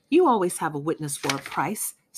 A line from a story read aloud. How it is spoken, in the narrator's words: snapped the inspector